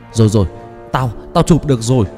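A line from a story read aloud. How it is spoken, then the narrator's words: Loud shout. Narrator (Vietnamese): Năm Béo ngừng kêu gào, hét lớn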